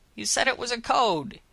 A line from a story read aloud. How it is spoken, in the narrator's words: he yelled at Willow